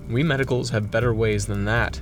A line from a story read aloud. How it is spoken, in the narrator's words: said Fetz